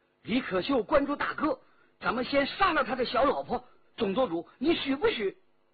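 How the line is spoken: Hateful shout. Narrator (Chinese): 骆宾恨恨不已，叫道

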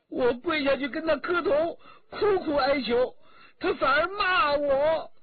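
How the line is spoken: Crying. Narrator (Chinese): 新燕哭着说

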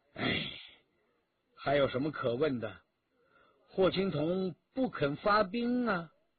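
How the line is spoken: Sighing. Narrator (Chinese): 徐天红叹了口气

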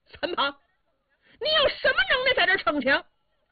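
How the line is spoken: Explosive shout. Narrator (Chinese): 炸

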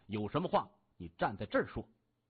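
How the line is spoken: Cold. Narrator (Chinese): 郭准冷声说

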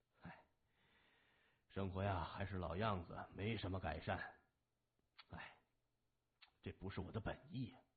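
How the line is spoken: Sighing. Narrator (Chinese): 谢文东摇头叹息着说

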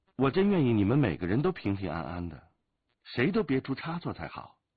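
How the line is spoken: Sighing. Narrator (Chinese): 独孤剑叹了口气

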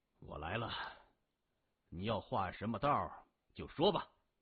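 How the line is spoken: Cold question. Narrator (Chinese): 李世明冷声问

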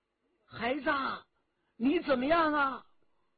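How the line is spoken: Loud shout. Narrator (Chinese): 关明梅大叫

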